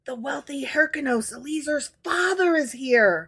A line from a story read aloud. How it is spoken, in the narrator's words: Rabbi Joshua ben Hanai and Rabbi Simon ben Nathaniel went to Rabbi Yohanan and whispered